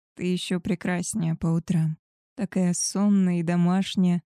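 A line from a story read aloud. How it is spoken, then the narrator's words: Soft. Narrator (Russian): сказал он мягко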